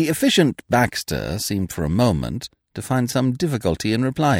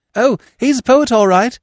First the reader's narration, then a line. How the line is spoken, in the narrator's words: he said hastily